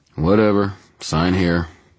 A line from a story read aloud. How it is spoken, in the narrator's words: the jailer said in a bored tone